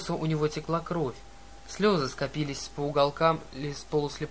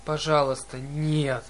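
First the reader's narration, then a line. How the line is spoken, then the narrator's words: Moaning plea. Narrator (Russian): простонал циклоп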